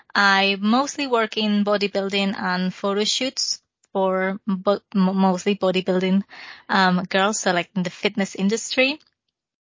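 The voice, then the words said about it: Spanish accent in English. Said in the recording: “I'm Spanish, if you couldn't tell from my accent”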